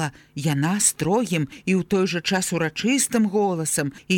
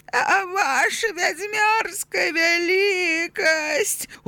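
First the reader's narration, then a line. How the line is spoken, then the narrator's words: Pleading. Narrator (Belarusian): узмалілася Ауга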